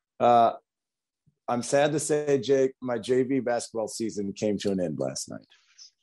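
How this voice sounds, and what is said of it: Hoarse voice. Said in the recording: “You probably can tell my voice is a little hoarse today”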